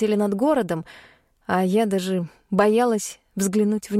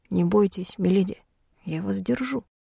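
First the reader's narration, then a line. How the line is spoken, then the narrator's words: Whisper in ear. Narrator (Russian): Хайт шепнул на ухо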